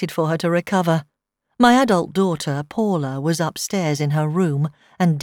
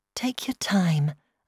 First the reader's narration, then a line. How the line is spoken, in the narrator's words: said gently